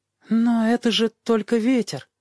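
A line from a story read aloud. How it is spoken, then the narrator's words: Uncertain objection. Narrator (Russian): возразил он неуверенным голосом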